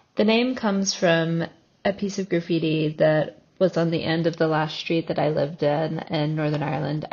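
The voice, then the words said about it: American accent. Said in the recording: “As you can probably tell from my accent, I'm American”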